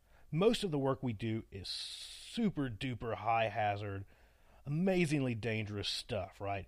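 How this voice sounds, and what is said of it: Appalachian accent. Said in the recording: “my wonderful Appalachian accent”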